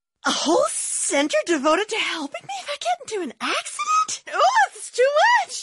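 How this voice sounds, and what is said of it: Frantic, easily overwhelmed character voice. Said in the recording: “my impression of an easily overwhelmed person”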